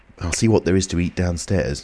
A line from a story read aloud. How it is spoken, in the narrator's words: said Kemp